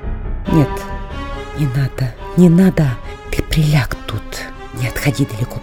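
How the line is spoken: Whisper. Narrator (Russian): прошептала Катерина Львовна

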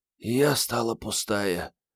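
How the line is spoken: Mumbled. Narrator (Russian): пробормотала Мариетта

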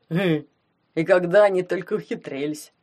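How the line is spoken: Deep bass voice. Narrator (Russian): пробасил Гломов

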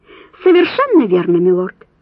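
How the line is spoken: Cheerful. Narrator (Russian): весело призналась она

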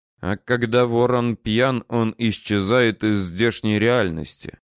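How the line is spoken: Quiet, barely restrained despair. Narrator (Russian): негромко сказал Данияр, с трудом сдерживаясь, чтобы не загрохотать от отчаяния

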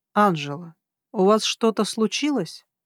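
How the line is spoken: Quiet even voice. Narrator (Russian): Хелик тихим, ровным голосом произнес

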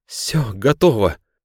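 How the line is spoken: Exclamation. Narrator (Russian): воскликнул он

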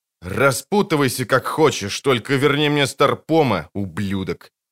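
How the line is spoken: Angry mutter. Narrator (Russian): злобно пробормотал Холден

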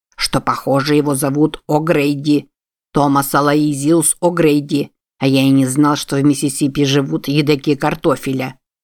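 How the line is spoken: Grumbling. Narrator (Russian): проворчал доктор

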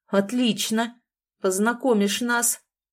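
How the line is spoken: Angry declaration. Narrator (Russian): злобно заявил парень

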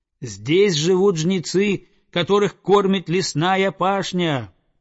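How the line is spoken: Eagle shouting. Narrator (Russian): прокричал орел

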